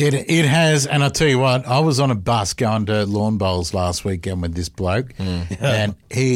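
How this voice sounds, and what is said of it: Usual voice. Nothing is said of it.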